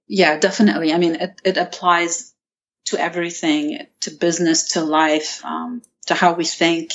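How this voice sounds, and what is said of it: Non-American, Lebanese accent. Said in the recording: “you don't have a typical American accent ... you grew up in Lebanon”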